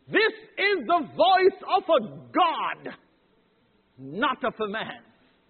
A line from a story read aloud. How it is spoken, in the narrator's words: the people went wild and they shouted